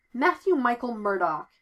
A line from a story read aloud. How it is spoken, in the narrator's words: he says in his best authoritative lawyer voice